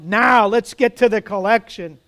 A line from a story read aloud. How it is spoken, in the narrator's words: A man shouted